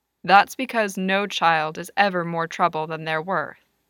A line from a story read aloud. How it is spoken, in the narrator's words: Lewis told him firmly